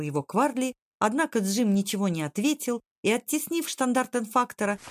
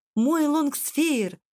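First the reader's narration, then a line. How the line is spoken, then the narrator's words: Joyful exclamation. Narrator (Russian): радостно воскликнул Джим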